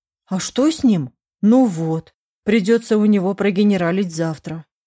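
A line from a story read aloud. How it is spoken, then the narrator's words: Grumbled. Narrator (Russian): проворчала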